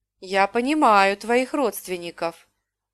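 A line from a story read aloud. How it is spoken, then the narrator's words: Tired. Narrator (Russian): устало сказала я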